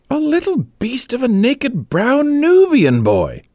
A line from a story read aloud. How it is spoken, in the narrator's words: spluttered Egbert